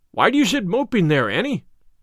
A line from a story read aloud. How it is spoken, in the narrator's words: cried her brother